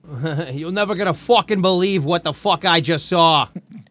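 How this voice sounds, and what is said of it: Bad mixed French and New Jersey accent. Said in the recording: “his French accent slowly turns where it's like a mix between two. Well, you know, like a bad”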